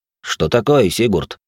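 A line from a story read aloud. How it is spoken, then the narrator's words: Grumbling. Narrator (Russian): пробурчал Джейкоб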